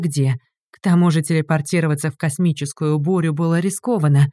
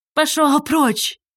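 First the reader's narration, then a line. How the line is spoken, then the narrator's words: Hoarse shout. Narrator (Russian): крикнула Инга охрипшим голосом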